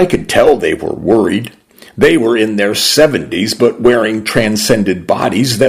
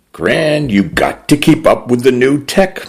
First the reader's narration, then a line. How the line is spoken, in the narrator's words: said, laughing